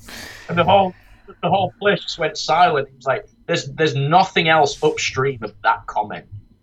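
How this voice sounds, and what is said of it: Yorkshire accent. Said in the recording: “my dumb Yorkshire accent”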